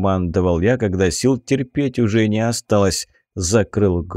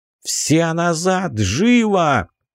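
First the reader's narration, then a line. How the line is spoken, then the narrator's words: Yelling. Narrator (Russian): заорал я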